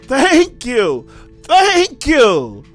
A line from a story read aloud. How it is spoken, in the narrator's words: The young man cried out